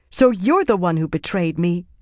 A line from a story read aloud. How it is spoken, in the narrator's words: Egwene said angrily